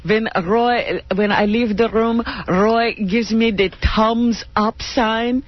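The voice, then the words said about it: Imitated Siegfried accent. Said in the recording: “Anything but that accent.”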